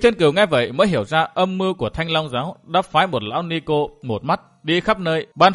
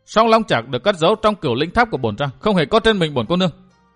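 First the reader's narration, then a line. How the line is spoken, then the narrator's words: Angry. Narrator (Vietnamese): Mai Ánh Tuyết tức giận nói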